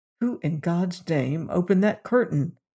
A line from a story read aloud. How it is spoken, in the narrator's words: he muttered